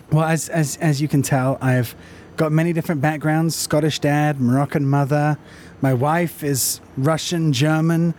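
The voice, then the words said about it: British accent. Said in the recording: “Your accent gives you away. ... There's a British side to you,”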